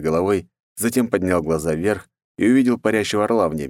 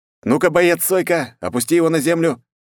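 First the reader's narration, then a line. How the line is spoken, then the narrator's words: Sharp, fast, ending in bark. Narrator (Russian): Резко и быстро сказал, и в конце рявкнул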